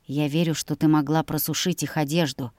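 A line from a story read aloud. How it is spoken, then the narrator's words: Whisper in ear. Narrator (Russian): шепнул он мне на ушко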